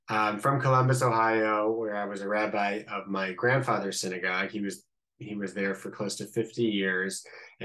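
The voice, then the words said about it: Slight American Midwestern accent. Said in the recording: “This is not an Israeli accent. This is a I guess, a little Midwestern accent.”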